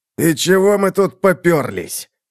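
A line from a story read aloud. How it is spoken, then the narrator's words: Angry hiss, pained. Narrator (Russian): зло прошипел Халлас, держась рукой за щеку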